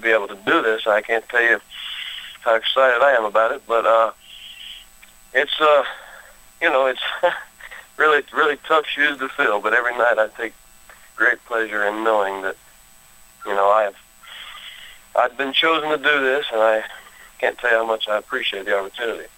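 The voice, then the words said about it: Slight Southern Texas twang. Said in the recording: “you've got a little bit of a southern twang. You're from Texas originally”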